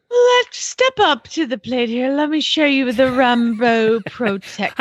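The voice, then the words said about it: Put-on British accent. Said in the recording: “my British accent because it's so on point”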